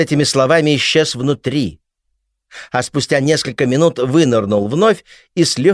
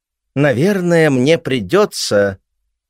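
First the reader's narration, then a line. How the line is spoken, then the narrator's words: Mumbling. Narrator (Russian): водитель промямлил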